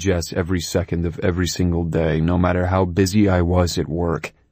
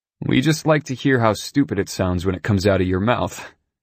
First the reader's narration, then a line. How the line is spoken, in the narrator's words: Ryan said with a laugh